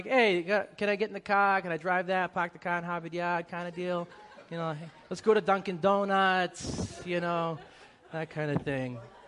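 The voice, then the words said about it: Put-on Boston accent, dropped R's. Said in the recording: “my Boston accent because it comes out real quick ... I need to start enunciating my R's”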